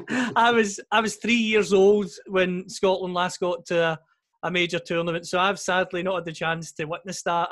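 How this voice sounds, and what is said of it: Scottish accent. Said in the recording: “as you can hear from my accent, I'm from Scotland”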